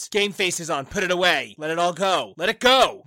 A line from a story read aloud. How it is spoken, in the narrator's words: The other team shouts